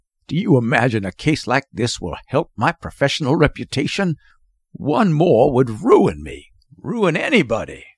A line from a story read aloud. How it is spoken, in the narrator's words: muttering